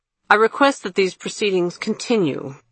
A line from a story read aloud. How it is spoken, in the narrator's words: she said abruptly and harshly